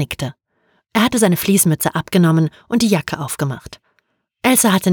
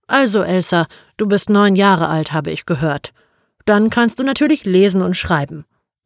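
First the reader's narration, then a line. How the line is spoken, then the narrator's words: Plain. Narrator (German): sagte Henriksson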